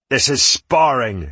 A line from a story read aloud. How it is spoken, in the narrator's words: Hayden spat